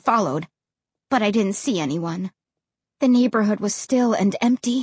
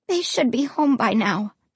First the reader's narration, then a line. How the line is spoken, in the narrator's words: I said, my voice shaky and weak